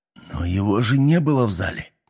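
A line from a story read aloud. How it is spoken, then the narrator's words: Displeased hiss. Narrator (Russian): недовольно прошипел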